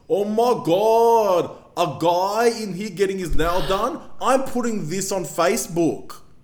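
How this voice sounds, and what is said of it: Imitated Greek woman's voice. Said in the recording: “I'm Greek, so I can do the voice.”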